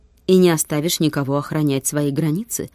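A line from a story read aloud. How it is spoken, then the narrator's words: Mocking question. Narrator (Russian): насмешливо спросил Свиагр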